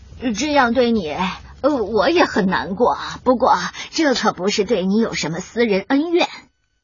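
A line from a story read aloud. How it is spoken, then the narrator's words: Sighing. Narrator (Chinese): 狐狸叹着气说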